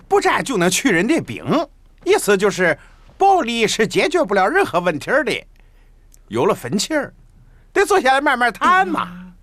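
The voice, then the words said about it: Shandong regional Chinese accent. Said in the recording (Chinese): “大哥是山东人。...你的口音我一听就知道是山东人。”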